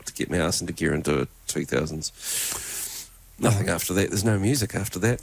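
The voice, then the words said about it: New Zealand accent. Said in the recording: “You said go to bed in a Kiwi accent ... Because I've got a Kiwi accent.”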